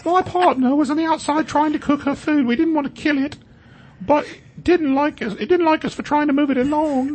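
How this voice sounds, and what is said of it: Bad put-on British accent. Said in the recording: “That's not an Australian ... accent ... doing a really bad British accent”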